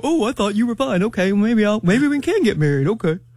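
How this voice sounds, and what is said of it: Imitates a man's voice. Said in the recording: “my man impersonation”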